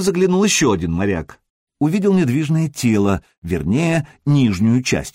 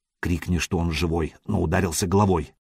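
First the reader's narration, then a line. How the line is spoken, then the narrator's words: Whisper in foreign tongue. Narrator (Russian): прошептал Сергей по-ромейски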